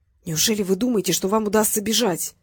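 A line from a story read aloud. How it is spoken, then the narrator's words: Man's whispered question. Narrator (Russian): почему-то шепотом спросил дядечка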